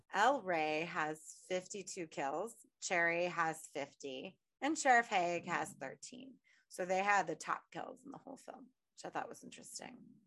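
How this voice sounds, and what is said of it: Sick, rough-sounding voice. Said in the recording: “I sound like a drag queen in heat right now, but it's because I'm sick. So if I sound awful”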